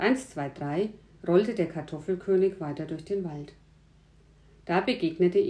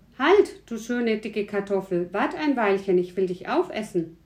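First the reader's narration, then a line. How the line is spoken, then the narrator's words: Called out. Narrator (German): Der rief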